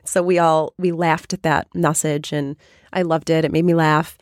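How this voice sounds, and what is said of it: Raspy, nearly lost voice. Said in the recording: “my voice is a little raspy ... my voice is almost gone”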